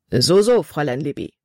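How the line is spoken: Plain. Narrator (German): sagte er

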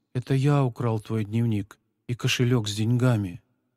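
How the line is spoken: Quiet. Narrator (Russian): Павлик тихо произнес

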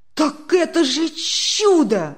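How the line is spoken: Delighted exclamation. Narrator (Russian): Не выдержав, в восторге воскликнул Демьян Лукич

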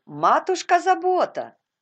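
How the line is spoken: Shout. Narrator (Russian): крикнула Резли

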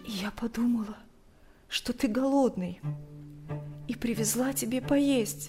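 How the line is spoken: Barely audible, strained. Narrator (Russian): еле слышно выдавила она

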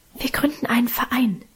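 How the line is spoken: Whisper. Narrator (German): flüsterte Minchen

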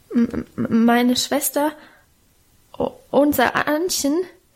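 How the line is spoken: Frightened stammering. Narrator (German): stotterte er vor dem gelben, knochigen Gesicht der Alten

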